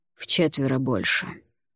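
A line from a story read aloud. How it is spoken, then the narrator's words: Flat, dispassionate voice. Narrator (Russian): бесстрастным голосом произнес Грит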